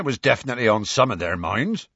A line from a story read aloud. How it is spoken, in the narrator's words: said Hagrid